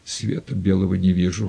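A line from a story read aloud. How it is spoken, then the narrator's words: Faint whisper, weak. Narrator (Russian): шептал он бескровными губами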